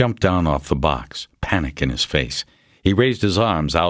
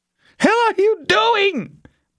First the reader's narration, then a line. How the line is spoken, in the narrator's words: Borkin screamed at her